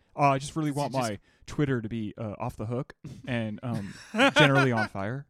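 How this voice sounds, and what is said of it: Jeremy Strong impression, slipping at end. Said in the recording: “Even though that slipped a little into ... you had his cadence right and you had his voice right, but then you dropped off a little bit right at the end ... sucks at his Jeremy Strong impression”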